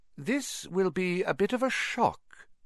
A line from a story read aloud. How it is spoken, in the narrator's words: said Professor McGonagall in a surprisingly gentle voice